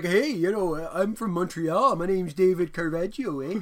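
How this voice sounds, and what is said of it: Put-on Canadian accent. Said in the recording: “didn't try to do a French-Canadian accent ... where people try to do Canadian accents and they just end up doing, like, Swedish ones ... Or Minnesota”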